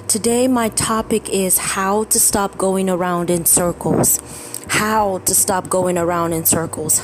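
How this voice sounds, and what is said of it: Congested, tired-sounding voice. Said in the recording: “hear it in my voice, but I have been dealing with a cold ... my body has just been attacked by tiredness”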